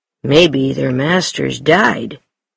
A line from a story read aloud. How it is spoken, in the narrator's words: Mackenzie answered